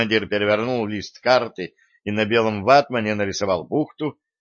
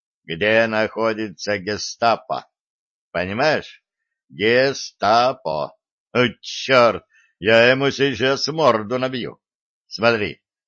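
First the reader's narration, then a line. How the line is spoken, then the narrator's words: Slow, deliberate question. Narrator (Russian): медленно разжевывая слова, спросил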